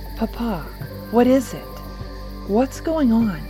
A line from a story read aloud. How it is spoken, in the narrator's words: Teresa asked, her voice quivering with apprehension